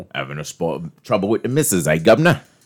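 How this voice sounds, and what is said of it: Put-on Cockney accent. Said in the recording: “So it'd be London, like a Cockney ... Cockney ... I love when you guys do the accents”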